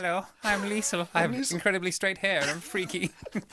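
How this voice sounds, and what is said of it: Put-on character voice for Liesl. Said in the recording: “you've gone back to your character voice ... You do your Liesl voice”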